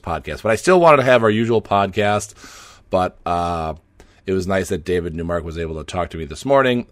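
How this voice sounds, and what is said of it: Hoarse, partly lost voice. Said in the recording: “my voice is gone. It still is a little bit gone today. It's a little bit better, but you may be hearing a bunch of hacking and clearing of the throat”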